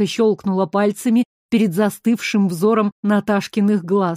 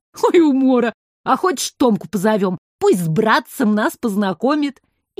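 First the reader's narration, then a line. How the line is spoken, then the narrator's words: Ringing shout across hall. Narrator (Russian): звонко крикнула через весь зал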